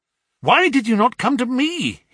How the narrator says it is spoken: he cried

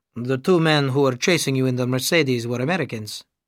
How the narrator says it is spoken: he said

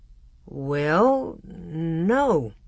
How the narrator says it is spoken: Father answered slowly

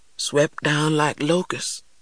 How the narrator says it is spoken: continued in a faraway voice

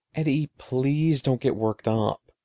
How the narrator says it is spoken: pleaded

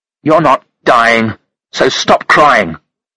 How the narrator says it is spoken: Monica said roughly

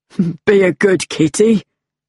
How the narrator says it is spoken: laughed the policeman

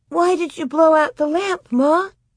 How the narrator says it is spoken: Grace almost whimpered

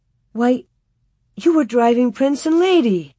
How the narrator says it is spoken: She exclaimed

